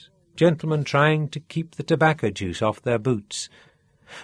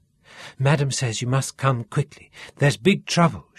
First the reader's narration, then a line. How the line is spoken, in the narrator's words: she gasped